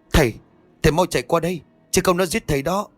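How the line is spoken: Shout. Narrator (Vietnamese): Tôi hét

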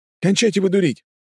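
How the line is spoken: Excited, joyful voice. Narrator (Russian): послышался взволнованно радостный голос Тычка

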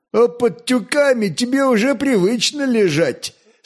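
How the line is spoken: Laughing merchants. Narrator (Russian): смеялись купцы

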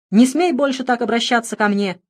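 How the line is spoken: Hurt, shouting back. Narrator (Russian): обиженно прокричала в ответ

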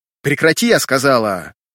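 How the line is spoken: Shouting. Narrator (Russian): Выкрикнув, она

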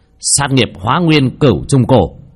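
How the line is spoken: Shout. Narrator (Vietnamese): Bác Cổ hét lên

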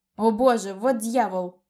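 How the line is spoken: Shouting. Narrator (Russian): закричал

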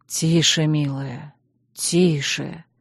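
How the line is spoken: Hoarse, soothing. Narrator (Russian): хрипло проговорил Чейз

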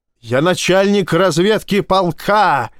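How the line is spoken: Yelling. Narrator (Russian): заорал капитан

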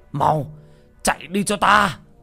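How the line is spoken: Howling, old man. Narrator (Vietnamese): Ông Kiều Nam gào lên

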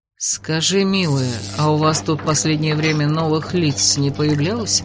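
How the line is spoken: Gentle inquiry. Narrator (Russian): Мягко поинтересовался Ладенье

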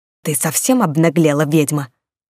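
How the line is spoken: Furious hiss. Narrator (Russian): Яростно прошипели

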